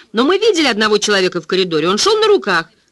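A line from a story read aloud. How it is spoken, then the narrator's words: Exclaimed. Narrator (Russian): воскликнул Роба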